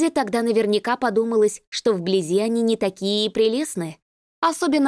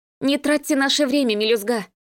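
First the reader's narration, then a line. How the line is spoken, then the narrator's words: Snorting. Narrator (Russian): фыркнула Кристина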